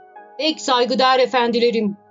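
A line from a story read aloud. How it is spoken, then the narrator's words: Shouted. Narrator (Turkish): diye bağırdı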